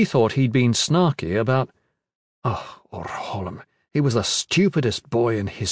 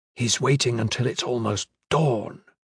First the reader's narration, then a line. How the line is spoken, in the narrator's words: Caris whispered